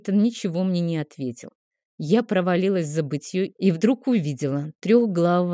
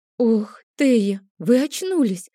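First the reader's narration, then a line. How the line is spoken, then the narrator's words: Joyful exclamation. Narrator (Russian): воскликнула крестьянка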